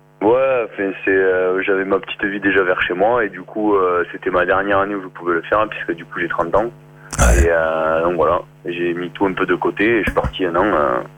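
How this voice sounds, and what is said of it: Slight southern French regional accent. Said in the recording (French): “d'où nous vient ce petit accent que tu as Toulouse ... Non, je suis de Saint-Geniès de Fontédy, euh, juste à côté de Béziers ... t'es parti avec ton petit accent”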